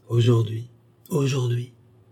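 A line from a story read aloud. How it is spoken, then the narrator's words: Flustered stammer. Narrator (French): balbutia Marceline troublée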